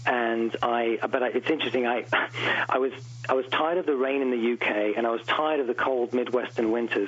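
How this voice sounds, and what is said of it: British accent. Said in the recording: “I'm guessing from your accent, you're from across the pond”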